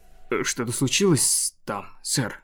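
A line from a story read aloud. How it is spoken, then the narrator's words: Plain. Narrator (Russian): спросил сопровождающий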